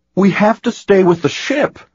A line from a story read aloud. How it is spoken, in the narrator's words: Anakin cried out